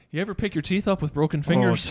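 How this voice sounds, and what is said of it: Good put-on Irish accent. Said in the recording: “in that accent ... that's a good Irish accent.”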